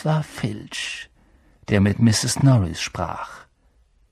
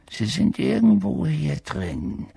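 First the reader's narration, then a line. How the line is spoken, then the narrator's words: Murmur. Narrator (German): hörten sie ihn murmeln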